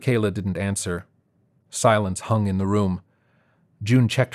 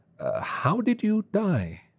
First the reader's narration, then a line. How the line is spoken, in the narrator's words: June gave a chuckle and then cleared her throat hesitantly before asking